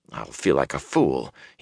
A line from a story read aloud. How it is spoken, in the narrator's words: he muttered